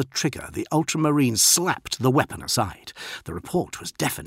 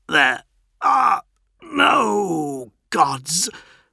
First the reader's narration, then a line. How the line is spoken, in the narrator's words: the stricken legionary choked